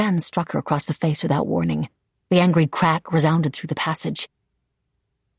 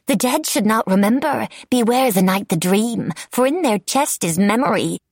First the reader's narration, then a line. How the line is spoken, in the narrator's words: Cackling, Nicolina sang